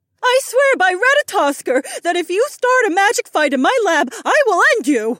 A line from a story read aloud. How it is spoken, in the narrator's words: Susie yelled